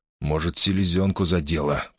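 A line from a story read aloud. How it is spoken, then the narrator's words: Muttering. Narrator (Russian): пробормотал он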